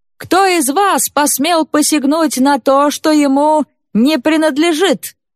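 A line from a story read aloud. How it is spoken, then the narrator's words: Loud shout. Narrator (Russian): громко крикнул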